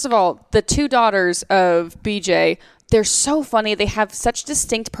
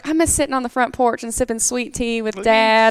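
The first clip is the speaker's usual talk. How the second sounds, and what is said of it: Put-on Southern accent. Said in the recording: “one of them that's like Southern ... to the accent. I thought you could just do it quite easy because you're, you know, from Texas”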